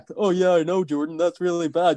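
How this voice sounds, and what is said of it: Imitates another person's voice. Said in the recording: “Great at my accent there. Well done.”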